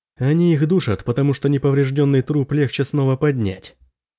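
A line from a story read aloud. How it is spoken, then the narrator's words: Plain. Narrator (Russian): сказал Дарин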